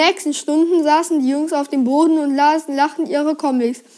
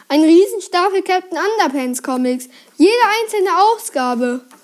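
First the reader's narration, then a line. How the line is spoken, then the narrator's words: Calling out. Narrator (German): rief Harold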